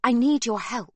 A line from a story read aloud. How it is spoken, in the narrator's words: Sibby says urgently